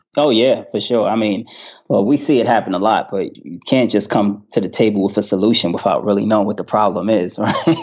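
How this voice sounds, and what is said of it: Strong New York accent. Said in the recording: “I'm picking up this New York accent real strong”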